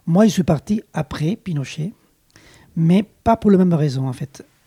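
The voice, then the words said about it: Slight Chilean accent in French. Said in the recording (French): “vous l'entendez, j'ai un petit accent, je suis d'origine chilienne”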